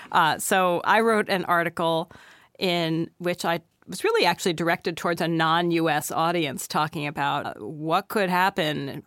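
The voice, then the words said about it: Slightly hoarse voice. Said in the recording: “I have a little bit of a cold, so I'm a little hoarse”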